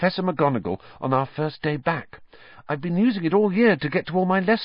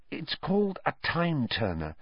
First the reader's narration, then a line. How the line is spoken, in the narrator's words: Hermione whispered